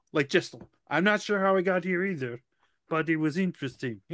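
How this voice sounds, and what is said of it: Unidentifiable put-on accent. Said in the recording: “I don't even know what that accent is, but I did it.”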